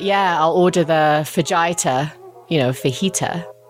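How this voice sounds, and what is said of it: Thick mixed accent, a bit Cockney. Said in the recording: “he has kind of a thicker mixed accent. So when he speaks English, it sounds a bit like Cockney”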